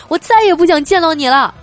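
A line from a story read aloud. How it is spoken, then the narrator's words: Hysterical loud shout. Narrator (Chinese): 叔叔估计也是被压迫到极限了，实在受不了了，于是就冲着他老婆歇斯底里的大声喊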